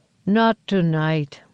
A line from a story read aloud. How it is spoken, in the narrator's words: said with a low rumble